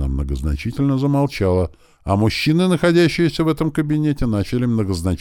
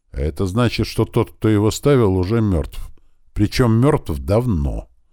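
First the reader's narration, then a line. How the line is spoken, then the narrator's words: Snort. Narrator (Russian): хмыкнула Ария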